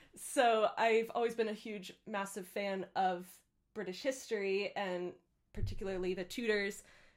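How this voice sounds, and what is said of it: American accent. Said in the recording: “I am originally from the United States, if you couldn't already tell from my accent.”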